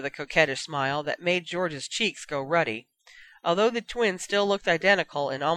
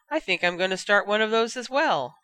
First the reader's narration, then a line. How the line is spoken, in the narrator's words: Fred said brightly